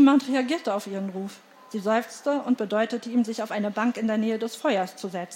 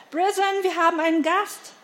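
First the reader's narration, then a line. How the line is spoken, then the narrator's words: Called into hall. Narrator (German): rief Elaine in die Halle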